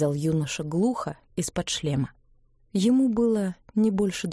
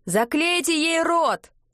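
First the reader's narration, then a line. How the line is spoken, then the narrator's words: Several voices yelling. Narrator (Russian): заорали несколько голосов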